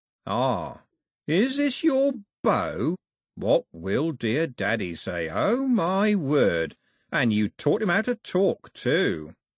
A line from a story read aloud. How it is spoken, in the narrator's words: Cox said, slowly and carefully